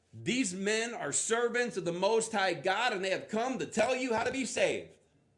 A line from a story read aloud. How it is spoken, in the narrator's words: She shouting